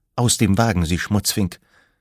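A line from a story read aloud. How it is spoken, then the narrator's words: Trembling voice. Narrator (German): sagte sie mit bebender Stimme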